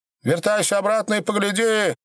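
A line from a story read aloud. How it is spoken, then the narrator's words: Shouting. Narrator (Russian): кричала Матрена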